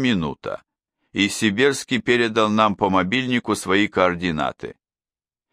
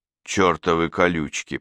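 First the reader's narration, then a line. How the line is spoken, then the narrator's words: Grumbling through teeth. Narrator (Russian): проворчал сквозь зубы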